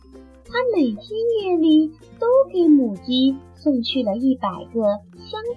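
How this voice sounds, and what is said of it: Usual voice. Nothing is said of it.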